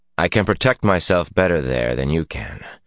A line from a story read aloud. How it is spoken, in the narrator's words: Rand told her coldly